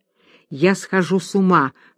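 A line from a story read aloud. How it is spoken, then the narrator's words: Whisper in ear. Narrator (Russian): шептал Вахлаков на ухо Аглае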